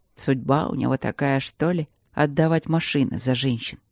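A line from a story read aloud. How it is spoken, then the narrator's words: Quiet laugh, coughing. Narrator (Russian): Догерти тихо засмеялся, закашлялся в трубку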